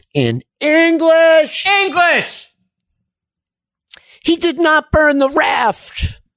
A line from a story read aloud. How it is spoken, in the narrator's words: Sun screams